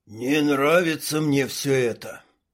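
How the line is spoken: Grumbling mutter. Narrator (Russian): буркнул Шмель

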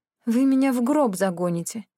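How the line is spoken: Sigh. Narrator (Russian): вздохнула я

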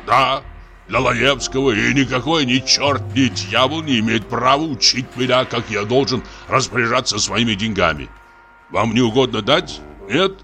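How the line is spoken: Laughing loudly. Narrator (Russian): Дьякон захохотал

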